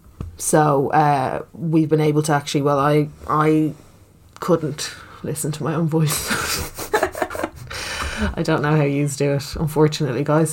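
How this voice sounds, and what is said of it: Speaks with a regional accent. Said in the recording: “This is just how I speak. This is my accent. ... You have a lovely accent.”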